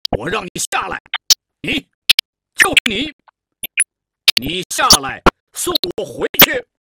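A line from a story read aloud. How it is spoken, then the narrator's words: Firm and loud. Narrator (Chinese): 黑脸盘态度很坚决，大声说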